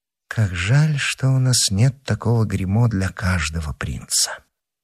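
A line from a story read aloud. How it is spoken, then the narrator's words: Undertone. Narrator (Russian): сказала вполголоса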